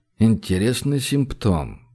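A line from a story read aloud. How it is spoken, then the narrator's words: Puzzled mutter. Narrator (Russian): пробормотал Гош озадаченно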